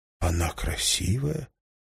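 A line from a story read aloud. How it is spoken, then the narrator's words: Whisper. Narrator (Russian): прошептал Уинстон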